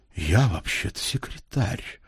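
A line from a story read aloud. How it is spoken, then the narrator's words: Low, almost masculine voice. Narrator (Russian): низким, почти мужским голосом сказала она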